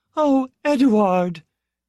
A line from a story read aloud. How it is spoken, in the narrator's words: Retzia cried